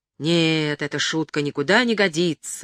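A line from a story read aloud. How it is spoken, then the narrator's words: Angry shout. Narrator (Russian): злобно вскричал он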